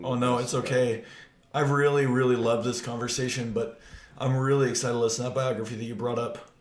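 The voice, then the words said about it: Strained, struggling voice. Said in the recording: “I'm struggling with my voice. ... your voice is not feeling.”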